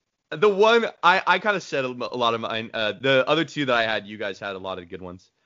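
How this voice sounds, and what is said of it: Usual voice. Nothing is said of it.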